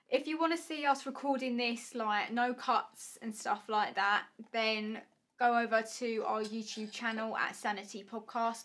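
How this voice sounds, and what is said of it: Essex accent. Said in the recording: “my Essex accent”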